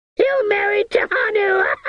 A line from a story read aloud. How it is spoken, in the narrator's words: The woman shrieked joyful